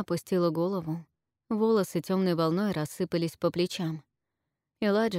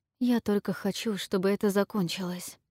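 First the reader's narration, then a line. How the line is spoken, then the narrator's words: Whispered. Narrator (Russian): прошептала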